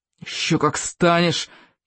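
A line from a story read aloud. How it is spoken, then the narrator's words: Thug's threatening hiss. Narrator (Russian): прошипел бандюк сквозь зубы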